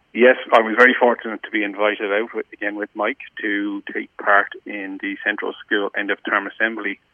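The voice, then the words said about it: Slight Irish accent. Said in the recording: “you have a slight Irish accent.”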